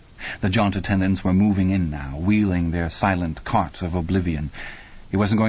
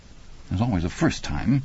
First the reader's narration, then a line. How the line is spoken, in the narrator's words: she muttered